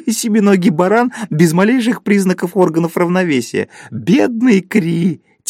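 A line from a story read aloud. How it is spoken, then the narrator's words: Sudden loud laughter. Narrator (Russian): Кто-то вдруг захохотал и сказал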